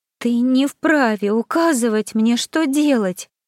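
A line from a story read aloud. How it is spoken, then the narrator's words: Snapping, overly plaintive. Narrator (Russian): Каким-то чересчур жалобным голосом огрызнулась Магда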